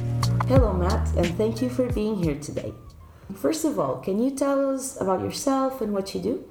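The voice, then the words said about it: Polished radio presenter voice. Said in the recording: “radio voice”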